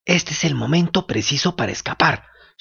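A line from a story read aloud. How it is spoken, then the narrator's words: Whispered. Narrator (Spanish): susurró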